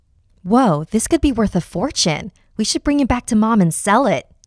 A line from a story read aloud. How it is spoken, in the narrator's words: Jamie exclaimed